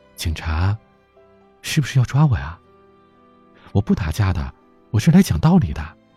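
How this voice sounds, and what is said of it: Quiet, hushed voice. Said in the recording (Chinese): “小声的问”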